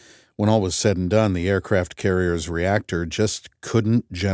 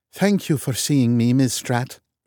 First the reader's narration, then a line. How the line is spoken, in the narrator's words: she said with a Norwegian accent